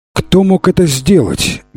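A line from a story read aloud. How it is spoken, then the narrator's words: Angry exclamation. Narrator (Russian): гневно воскликнула царица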